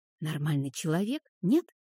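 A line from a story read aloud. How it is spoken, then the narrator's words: Changed tone of voice. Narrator (Russian): И опять мне, но уже другим голосом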